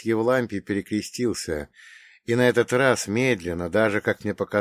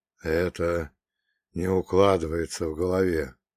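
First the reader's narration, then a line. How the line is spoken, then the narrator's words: Barely audible hushed voice. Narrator (Russian): он проговорил чуть слышно, словно боялся разрушить хрупкую тишину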